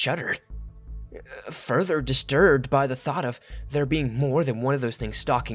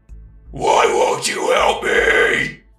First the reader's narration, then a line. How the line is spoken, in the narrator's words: It screamed